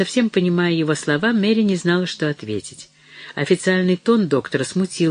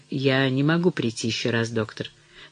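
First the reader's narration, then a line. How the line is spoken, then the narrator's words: Quiet. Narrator (Russian): Она сказала тихо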